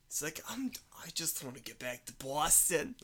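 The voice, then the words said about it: Put-on Boston accent. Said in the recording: “a better Boston accent than what was in the movie”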